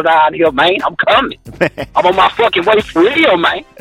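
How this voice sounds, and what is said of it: Deep Louisiana accent. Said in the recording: “your accent, your Louisiana accent is so deep, though... he sounds straight up”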